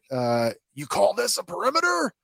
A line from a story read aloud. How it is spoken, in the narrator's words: he barks orders